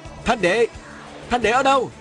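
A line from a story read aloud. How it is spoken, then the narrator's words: Loud calling out. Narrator (Vietnamese): Viên Thừa Chi lớn tiếng hô hoán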